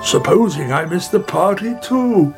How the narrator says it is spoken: He cried

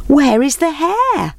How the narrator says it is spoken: they called out

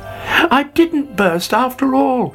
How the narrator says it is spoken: he cried delightedly

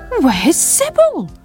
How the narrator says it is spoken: cried Sam

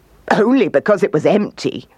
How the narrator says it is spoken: laughed the kangaroo

